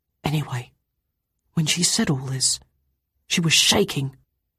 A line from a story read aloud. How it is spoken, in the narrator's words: said, almost in a whisper